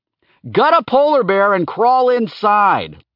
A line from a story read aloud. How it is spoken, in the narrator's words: Laertes shouted, still off screen